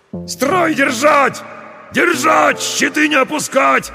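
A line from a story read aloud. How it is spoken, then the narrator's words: Several men yelling. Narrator (Russian): орали десятники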